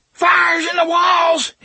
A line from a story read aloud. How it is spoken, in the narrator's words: he screamed